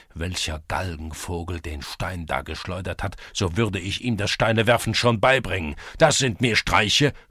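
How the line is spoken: Angry continuation. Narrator (German): fuhr er fort ... wütend

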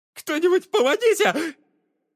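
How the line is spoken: Shrill squeal. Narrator (Russian): взвизгнул Чарльз

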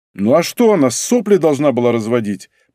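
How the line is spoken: Irritated. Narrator (Russian): произнес я раздраженно

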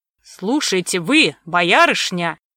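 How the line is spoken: Angry threatening growl. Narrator (Russian): Сомов вмиг вышел из себя и с угрозой прорычал

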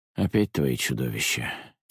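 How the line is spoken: Heavy weary sigh. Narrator (Russian): тяжело вздохнул отец

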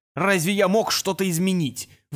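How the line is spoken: Roaring. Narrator (Russian): взревел он

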